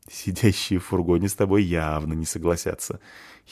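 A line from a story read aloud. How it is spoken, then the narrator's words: Giggling. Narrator (Russian): хихикает Фаль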